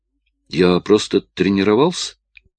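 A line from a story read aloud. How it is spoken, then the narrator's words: Defensive mumble. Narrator (Russian): оправдываясь, промямлил Порджи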